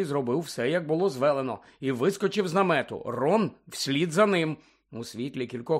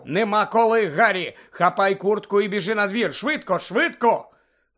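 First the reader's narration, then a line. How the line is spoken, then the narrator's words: Suddenly shouted. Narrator (Ukrainian): містер Уізлі раптом закричав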